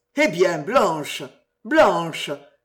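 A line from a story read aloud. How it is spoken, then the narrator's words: Exclaimed. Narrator (French): s'écria Sir Patrick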